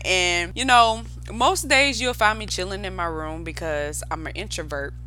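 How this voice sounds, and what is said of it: Bubbly Southern US country accent. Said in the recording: “I'm from South Carolina. I'm a Southern girl, born and raised in South Carolina ... y'all probably can hear it in my voice how country I am ... a really bubbly and goofy personality. You probably can hear it in my tone as you listen to me, how like bubbly and excited I get”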